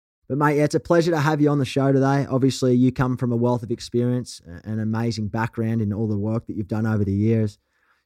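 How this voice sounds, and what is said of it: Thick rough Australian accent. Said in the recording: “you've got an accent. You're certainly not Australian or American ... do not lose your thick, rough Australian accent”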